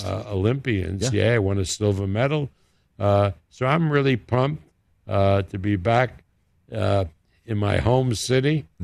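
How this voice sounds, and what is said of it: New York accent. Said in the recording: “you can tell my accent and I'm still in New York”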